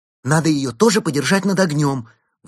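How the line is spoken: Excited exclamation. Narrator (Russian): возбужденно воскликнула Берта

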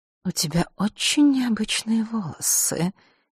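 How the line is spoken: Quiet ingratiating voice. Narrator (Russian): тихо и как-то вкрадчиво сказала

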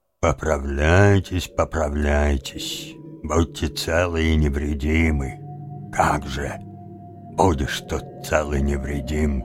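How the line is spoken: Muttering. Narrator (Russian): он пробормотал

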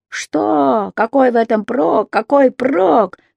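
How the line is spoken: Shouting. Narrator (Russian): кричал он

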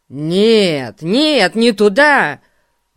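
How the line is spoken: Surprised exclamation. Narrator (Russian): воскликнул удивленный Эрн

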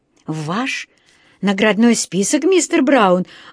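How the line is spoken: Astonished exclamation. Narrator (Russian): воскликнул он изумленно

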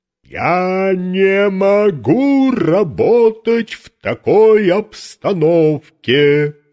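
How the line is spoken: Thundering loudly. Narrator (Russian): прогремел он на весь цирк

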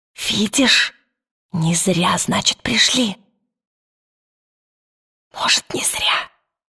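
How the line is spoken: Dry, thin, reedy voice. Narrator (Russian): сухо произнес Пантелеймон тонким мотыльковым голосом

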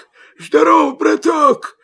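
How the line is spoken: Hoarse wolf rasp. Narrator (Russian): хрипит волк

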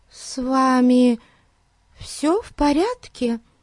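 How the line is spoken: Timid question. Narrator (Russian): Робко спросила она

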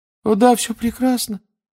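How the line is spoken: Unnaturally high babble. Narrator (Russian): пролепетал он все тем же неестественно высоким тоном

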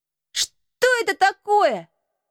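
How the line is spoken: Exclaimed. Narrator (Russian): воскликнул он

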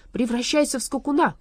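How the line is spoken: Shouting. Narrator (Russian): крикнул он

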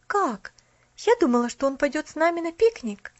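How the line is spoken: Exclaiming. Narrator (Russian): воскликнула она

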